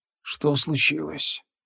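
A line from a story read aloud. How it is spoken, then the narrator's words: Barely audible whisper. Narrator (Russian): еле слышным шепотом произнес дух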